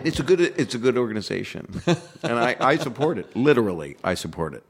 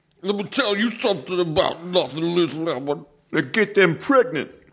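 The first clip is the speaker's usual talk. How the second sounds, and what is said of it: Bad Tracy Morgan impression. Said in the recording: “I would do my bad impressions ... if you're doing a Tracy Morgan quote”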